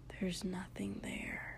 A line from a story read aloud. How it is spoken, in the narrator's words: Shoto whispered